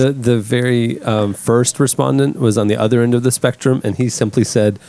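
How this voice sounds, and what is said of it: Usual voice. Nothing is said of it.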